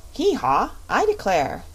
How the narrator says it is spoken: exclaimed the king

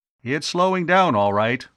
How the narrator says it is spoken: Arv called out

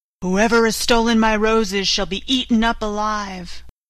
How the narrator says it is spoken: a fierce lion and roared out

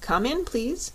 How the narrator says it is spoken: said Jellia Jamb

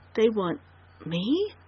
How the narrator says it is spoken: she gasped brokenly, incredulously

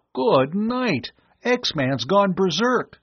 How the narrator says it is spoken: Tom cried

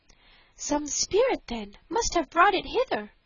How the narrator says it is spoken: cried the princess

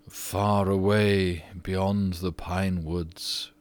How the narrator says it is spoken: he answered in a low, dreamy voice

